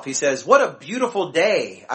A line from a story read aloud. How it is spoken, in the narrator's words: I exclaim